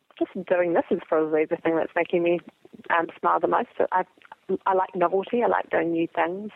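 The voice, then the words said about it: Thick New Zealand accent, smiling voice. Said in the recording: “my thick New Zealand accent ... it's a beautiful accent ... it sounds lovely ... your voice naturally sounds like it's smiling”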